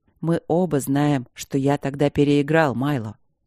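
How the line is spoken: Serious hoarse objection. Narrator (Russian): серьезно и сипло возразил Кембридж

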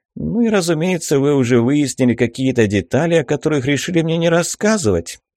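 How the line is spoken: Snide, smiling tone. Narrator (Russian): ехидно улыбнулся

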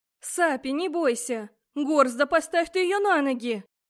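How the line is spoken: Restrained shout. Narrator (Russian): крикнула я, сдержавшись от ругательств

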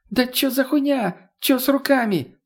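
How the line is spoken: Whining again. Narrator (Russian): снова заскулил

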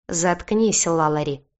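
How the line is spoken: Warning wolf growl. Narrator (Russian): предостерегающе рыкнул волк

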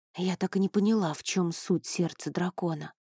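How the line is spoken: Whispered. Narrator (Russian): прошептала я

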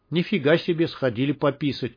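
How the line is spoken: Gruff mutter. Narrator (Russian): буркнул топор

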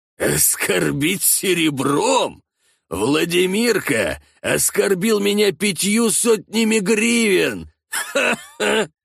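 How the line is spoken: Laughing, coughing, long pause. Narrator (Russian): Всеволод начал смеяться, но закашлялся и продолжил говорить только после продолжительной паузы

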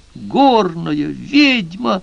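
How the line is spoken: Woman shouting, just awoken. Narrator (Russian): закричала женщина, тотчас стряхнув с себя сон

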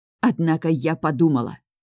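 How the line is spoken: Hissed through teeth. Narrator (Russian): шиплю сквозь зубы

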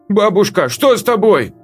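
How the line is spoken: Shouted. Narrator (Russian): выкрикнула девочка

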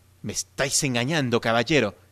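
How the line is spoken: Exclaiming. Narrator (Spanish): exclamó

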